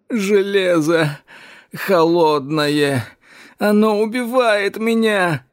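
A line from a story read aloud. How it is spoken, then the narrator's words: Moaned. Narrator (Russian): простонал Эш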